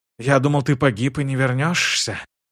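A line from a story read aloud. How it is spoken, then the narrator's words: Relieved whisper. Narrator (Russian): прошептал Шиз, не скрывая облегчения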